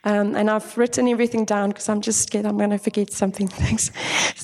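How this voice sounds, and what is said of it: Husky voice from a cold. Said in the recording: “I have a cold, so that's why my voice is a bit husky”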